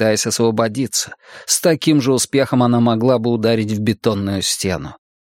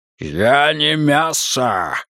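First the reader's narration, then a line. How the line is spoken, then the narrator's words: Growled. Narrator (Russian): рыкнуло оно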